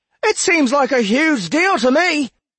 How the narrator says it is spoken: Alder called back, pushing his throat to make his voice be heard over the storm

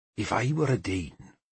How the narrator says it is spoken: Peerlig spoke softly, and I suspected he shared my discomfort

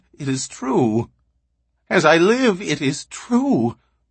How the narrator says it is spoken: He quavered

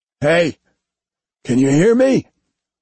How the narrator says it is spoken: His voice was rough, his throat dry like sandpaper

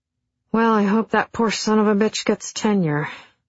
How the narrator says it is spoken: sighed Bill from his side of the room

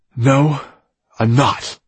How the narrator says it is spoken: snapped annoyed

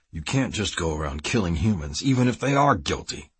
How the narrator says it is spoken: Kiefer growled

